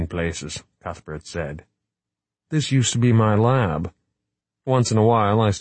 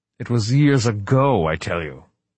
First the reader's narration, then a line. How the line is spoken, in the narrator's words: Wright snapped